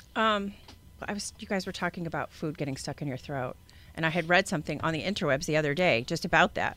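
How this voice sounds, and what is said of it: Scottish accent. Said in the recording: “a little bit of an accent... Who's the Irish girl... But it's Scottish... Originally from Scotland”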